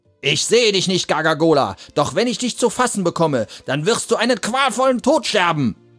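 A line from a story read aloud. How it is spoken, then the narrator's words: Shouting. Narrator (German): schrie er den Bäumen entgegen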